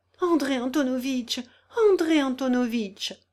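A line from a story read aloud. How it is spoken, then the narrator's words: Desperate exclamation. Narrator (French): s'écria Julie Mikhaïlovna au comble du désespoir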